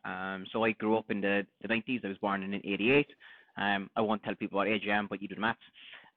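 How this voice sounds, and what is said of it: Cork Irish accent. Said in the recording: “born and bred in Cork ... the Cork accent is one. It's hard to lose.”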